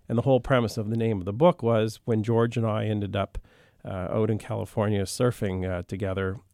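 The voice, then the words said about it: Slight Canadian accent. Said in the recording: “a hint of a Canadian accent”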